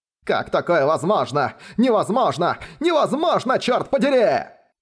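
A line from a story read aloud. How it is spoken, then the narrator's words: Frantic, crazed shouting. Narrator (Russian): Словно помешанный кричал Хань Даньзы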